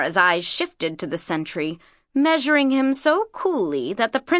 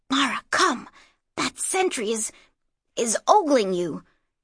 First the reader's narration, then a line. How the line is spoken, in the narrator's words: whispered Inanni, in embarrassment